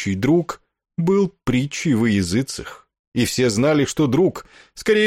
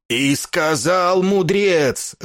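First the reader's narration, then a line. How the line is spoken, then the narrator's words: Straining yell. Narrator (Russian): орал меж тем ракшас, надрываясь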